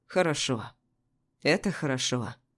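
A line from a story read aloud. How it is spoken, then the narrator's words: Tired. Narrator (Russian): он произнес устало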